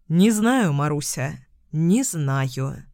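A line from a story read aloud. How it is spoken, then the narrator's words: Sighing. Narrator (Russian): вздохнул Михаил Захарович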